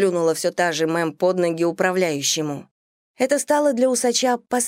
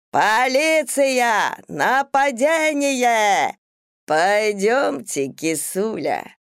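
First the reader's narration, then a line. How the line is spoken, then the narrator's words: Affected, drawn-out, loud. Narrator (Russian): Манерно растягивая гласные, нарочито громко обратился ко мне Диксон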